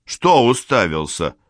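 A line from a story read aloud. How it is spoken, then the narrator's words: Plain. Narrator (Russian): спросил Валтасар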